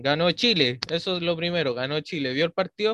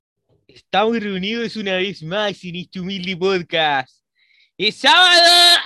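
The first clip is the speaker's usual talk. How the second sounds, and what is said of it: Mock sports announcer voice. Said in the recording (Spanish): “era un tono estúpido... de un comentarista sin ser comentarista de profesión ni de nada, así de un intento de locutor”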